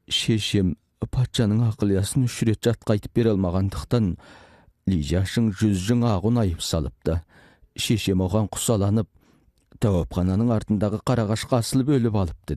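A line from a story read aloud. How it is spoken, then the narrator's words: Crying. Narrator (Kazakh): Хыйжоу жылап тұрып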